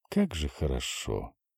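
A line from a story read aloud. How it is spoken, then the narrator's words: Happy, breathless exhale. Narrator (Russian): выдохнула подзамерзшая, но абсолютно счастливая Ася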